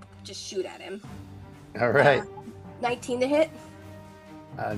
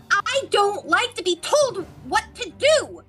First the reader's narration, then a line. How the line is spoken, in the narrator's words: I am just going to shout at him